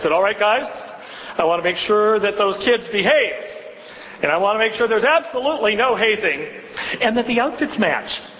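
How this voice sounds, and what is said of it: Big loud playground voice. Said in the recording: “put on my biggest playground voice”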